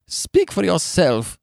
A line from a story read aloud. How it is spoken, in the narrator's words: she snapped through her sobs